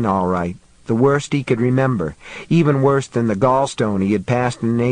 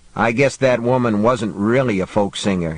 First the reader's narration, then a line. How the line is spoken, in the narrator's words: he said